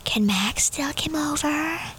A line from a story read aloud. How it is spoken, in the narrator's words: whispers in my ear